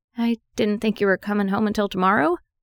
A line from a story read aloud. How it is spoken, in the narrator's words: She blinked twice and stammered